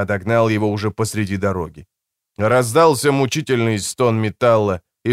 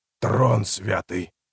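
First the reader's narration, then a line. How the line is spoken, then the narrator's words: Mumbled. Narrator (Russian): пробормотал Годвин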